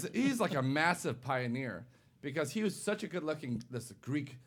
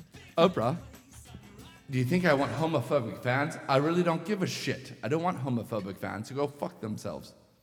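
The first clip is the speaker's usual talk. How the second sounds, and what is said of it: Put-on English accent. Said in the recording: “with an English accent, which I don't have”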